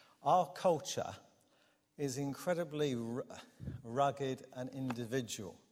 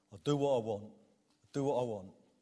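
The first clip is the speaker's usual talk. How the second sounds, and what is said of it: Put-on North Kent/South Essex accent. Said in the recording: “in that sort of North Kent, South Essex accent that Mark Godfrey and I can perfect”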